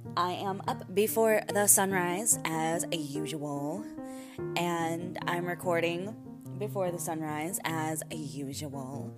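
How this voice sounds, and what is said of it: Slightly raspy morning voice. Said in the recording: “I have a little bit of a raspy voice going on because it's still morning, still waking up.”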